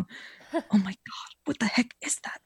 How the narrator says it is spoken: He whispered calmly, but alarmed

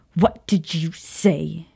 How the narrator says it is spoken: She snapped at him

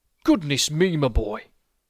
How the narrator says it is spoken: he snorted

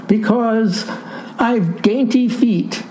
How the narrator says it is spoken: wailed Sawyer

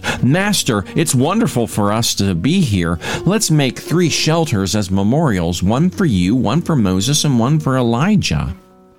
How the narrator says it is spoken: not even knowing what he was saying, blurted out

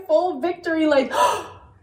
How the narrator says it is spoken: I snapped at him

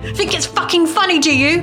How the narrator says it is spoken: He screamed

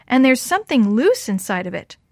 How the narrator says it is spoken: she yelled

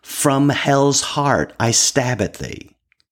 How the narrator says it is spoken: he quotes from the book, shouting

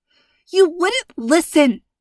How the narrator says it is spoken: Nadia said, voice angry and choked

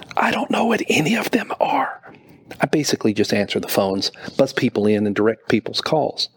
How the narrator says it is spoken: she said, whispering

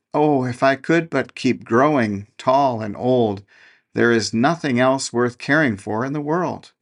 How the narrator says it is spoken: would exclaim

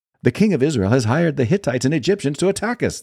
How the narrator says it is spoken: cried to one another

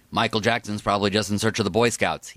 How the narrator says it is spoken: he said

